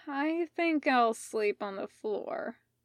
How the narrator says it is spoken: slurred

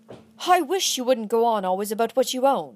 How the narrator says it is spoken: I said crossly

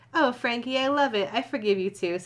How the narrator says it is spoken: said Columbia

